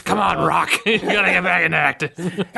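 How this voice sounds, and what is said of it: Imitates another person's voice. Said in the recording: “That was like Burgess Meredith, maybe, that I was doing an impression of. ... He does the voice.”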